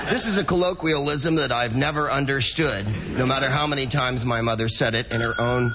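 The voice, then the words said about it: Nasal American accent. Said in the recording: “we don't get many Americans on the show ... I come from California, but originally I'm from nasal land”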